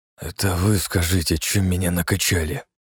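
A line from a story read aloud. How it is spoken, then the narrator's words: Hoarse wheeze. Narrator (Russian): прохрипел Игнат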